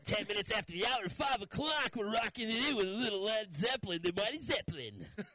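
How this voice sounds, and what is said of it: Radio DJ announcer voice. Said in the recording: “radio voice”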